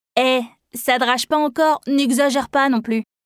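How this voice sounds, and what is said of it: Strong Ch'ti accent, raspy voice. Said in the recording (French): “Avec son accent ch'ti bien prononcé et sa voix rauque”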